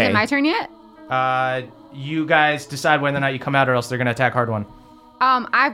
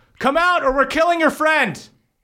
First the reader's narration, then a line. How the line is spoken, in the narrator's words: they yell